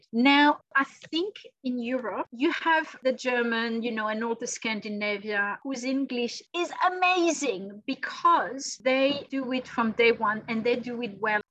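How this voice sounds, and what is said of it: Non-native English accent. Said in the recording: “I'm still cringing on my accent.”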